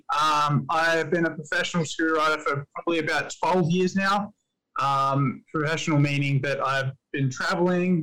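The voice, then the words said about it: Australian accent. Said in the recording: “I live in Australia, if you can't tell by the epic accent that is horrible.”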